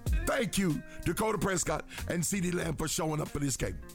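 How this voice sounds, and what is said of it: Tired, rough-sounding voice. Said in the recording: “I'm tired. My voice is just horrible.”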